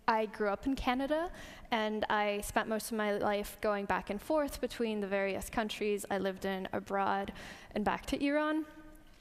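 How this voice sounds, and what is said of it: Canadian, American-sounding accent. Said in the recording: “sounds kind of American ... It's a Canadian accent.”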